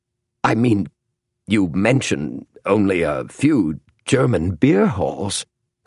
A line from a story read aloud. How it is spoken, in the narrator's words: stammered James